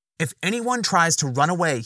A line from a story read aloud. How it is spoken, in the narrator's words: he barked